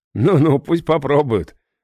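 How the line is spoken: Laughing. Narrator (Russian): рассмеялся я

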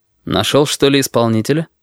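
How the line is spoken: Calm, slightly mocking question. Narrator (Russian): спокойно, даже с каплей насмешки спросил

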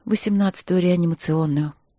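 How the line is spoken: Gloomy, tired nurse. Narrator (Russian): угрюмо и устало ответила медсестра

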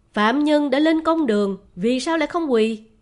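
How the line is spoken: Loud shout. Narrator (Vietnamese): Bùi Quan Nhạc vốn giỏi nhìn sắc mặt đoán ý, liền quát lớn

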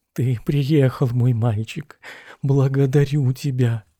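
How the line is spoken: Wary, low voice. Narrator (Russian): опасливо сказал вполголоса

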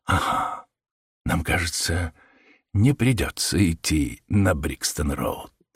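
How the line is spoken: Whispering. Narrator (Russian): прошептал Холмс

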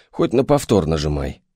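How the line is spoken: Snort. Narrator (Russian): хмыкнул

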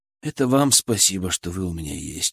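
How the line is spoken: Quiet reply. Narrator (Russian): ответил я так же тихо, чтобы не потревожить сон девочек

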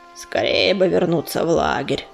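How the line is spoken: Grumbling. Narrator (Russian): проворчал он

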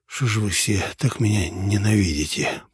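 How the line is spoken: Hoarse wheeze. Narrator (Russian): прохрипел я

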